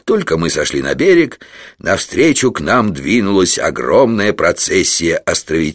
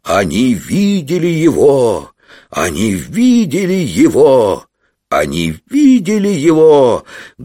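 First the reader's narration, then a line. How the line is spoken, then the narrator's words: Loud group announcement. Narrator (Russian): громко объявили представители 4 сословий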